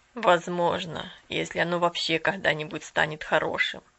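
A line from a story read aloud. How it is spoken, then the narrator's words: Sad. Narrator (Russian): печально ответил собеседник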